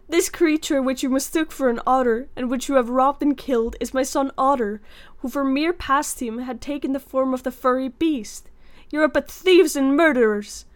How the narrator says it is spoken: gazed with horror upon the lifeless body of the otter and cried out

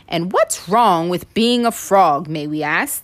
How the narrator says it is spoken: exclaimed the frogs

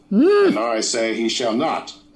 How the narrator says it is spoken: exclaimed Mr

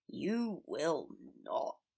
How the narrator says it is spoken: Severus groaned, disdain bleeding through more and more clearly

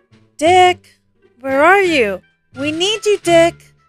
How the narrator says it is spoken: called out

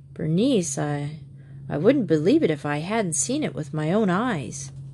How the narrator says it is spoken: he said weakly

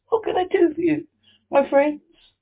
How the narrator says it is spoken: Queen herself, who asked, in a squeaky little voice

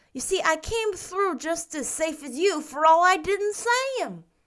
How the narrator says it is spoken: he added triumphantly

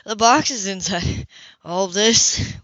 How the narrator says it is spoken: With a laugh

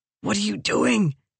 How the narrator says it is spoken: hissed

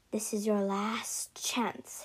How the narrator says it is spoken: hissed

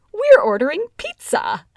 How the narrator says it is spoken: I exclaimed

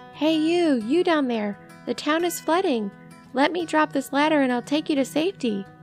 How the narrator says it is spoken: a guy with a megaphone shouted

